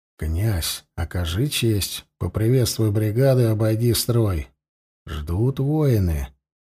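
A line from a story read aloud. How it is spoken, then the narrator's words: Quiet speech. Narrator (Russian): тихо проговорил Андрей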